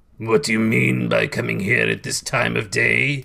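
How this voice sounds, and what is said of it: Growling voice as Scrooge. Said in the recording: “growled Scrooge, in his accustomed voice, as near as he could feign it.”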